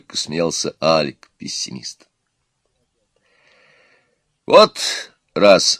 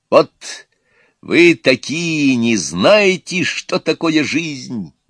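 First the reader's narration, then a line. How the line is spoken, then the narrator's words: Loud shouting. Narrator (Russian): громко кричал оптимист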